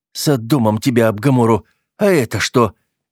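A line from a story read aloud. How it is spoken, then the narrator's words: Inner startled exclamation. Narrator (Russian): мысленно воскликнул, когда пробирка начала нагреваться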